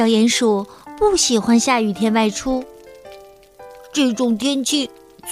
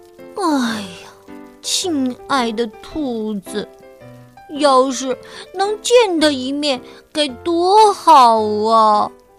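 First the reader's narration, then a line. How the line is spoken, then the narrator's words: Worried sigh. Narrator (Chinese): 为他担心了，小鼹鼠叹了口气说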